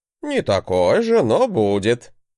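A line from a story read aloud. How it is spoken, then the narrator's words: Chuckling. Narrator (Russian): хохотнул мой учитель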